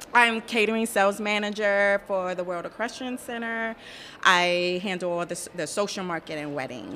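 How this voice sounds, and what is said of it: New York accent. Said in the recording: “I love your accent too. That's so fun. ... It's a New York accent.”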